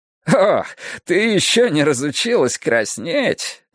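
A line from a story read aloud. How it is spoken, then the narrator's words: Laughing. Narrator (Russian): засмеялся смотритель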